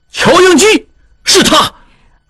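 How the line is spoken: Unrestrained shout. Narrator (Chinese): 小拉斯普汀忘情地大叫

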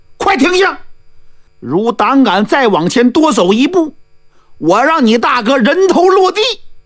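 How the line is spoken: Loud shout. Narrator (Chinese): 于文俊高喊

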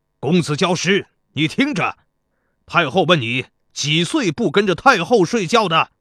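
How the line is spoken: Loud. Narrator (Chinese): 田国高声说

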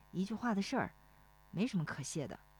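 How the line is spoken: Low murmur. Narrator (Chinese): 石丽华哦了一声，低声说

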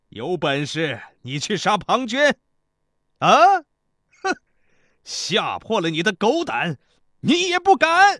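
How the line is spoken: Loud laughing speech. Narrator (Chinese): 申大夫仰天大笑道

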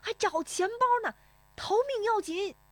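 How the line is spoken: Shouting while running. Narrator (Chinese): 石丽华边奔边喊

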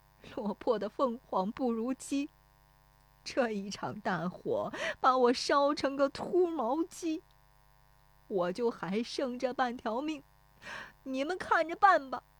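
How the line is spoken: Crying lament. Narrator (Chinese): 石有福 对着烧塌的房子哭说

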